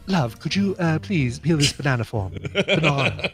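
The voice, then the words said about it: Put-on British accent. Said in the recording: “does a British accent ... it still wasn't a New Zealand accent”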